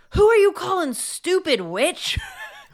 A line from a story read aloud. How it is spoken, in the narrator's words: screamed it back to me on the stage